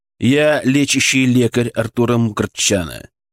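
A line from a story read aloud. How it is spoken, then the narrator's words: Calm, authoritative. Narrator (Russian): сказал я спокойно и авторитетно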